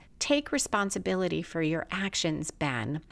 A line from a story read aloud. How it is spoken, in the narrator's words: The doctor gives a big sigh and continues